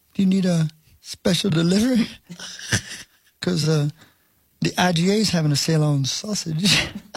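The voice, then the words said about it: Imitates another person's voice. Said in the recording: “Is your Swayze impression again?”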